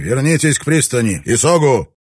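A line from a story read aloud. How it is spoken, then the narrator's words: Obedient shout. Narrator (Russian): Капитан послушно прокричал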